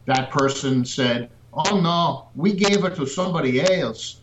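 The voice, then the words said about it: Badly done put-on accent. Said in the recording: “that accent,⟧ or the one you're badly demonstrating for us here ... Ricky Ricardo”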